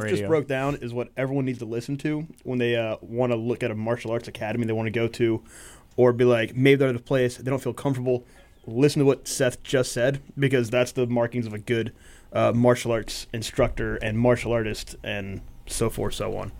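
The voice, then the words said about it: NPR radio host style voice. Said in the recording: “You just did your Roy Marsh NPR voice. That was awesome.”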